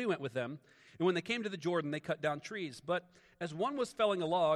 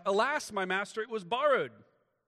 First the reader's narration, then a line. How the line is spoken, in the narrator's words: they cried out